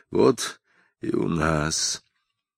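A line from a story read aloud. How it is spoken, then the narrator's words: Quiet. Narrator (Russian): один из них тихо сказал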